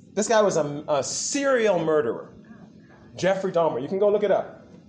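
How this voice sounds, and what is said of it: American accent. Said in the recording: “you can recognize from my accent, I'm from the U.S.”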